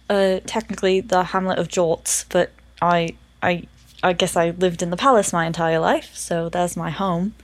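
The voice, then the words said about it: Character voice with odd accent. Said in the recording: “what the fuck is this accent?”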